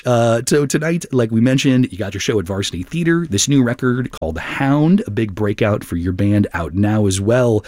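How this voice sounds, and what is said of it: Beautiful radio announcer voice. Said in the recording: “you have such a beautiful radio voice.”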